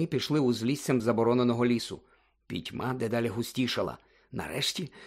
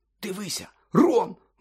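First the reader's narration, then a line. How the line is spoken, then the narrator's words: Sudden exclamation. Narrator (Ukrainian): вигукнув раптом Гаррі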